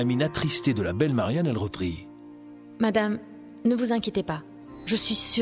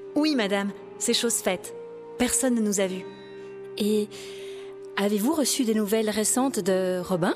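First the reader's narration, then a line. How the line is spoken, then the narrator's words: Timid question. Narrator (French): demanda timidement Lady Marianne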